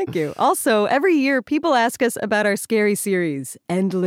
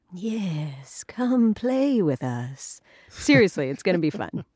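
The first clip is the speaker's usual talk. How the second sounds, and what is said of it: Creepy spooky voice. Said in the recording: “You like my creepy voice? ... Yeah, that's pretty good.”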